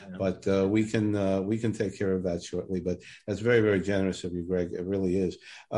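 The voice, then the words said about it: Brooklyn New York accent. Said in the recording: “if you can hear my Brooklyn accent”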